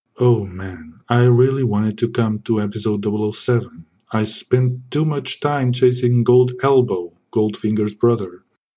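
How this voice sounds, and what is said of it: Suave sexy James Bond voice. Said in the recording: “I have a sexy voice. You see the sexy voice? I have to keep this sexy voice at all times”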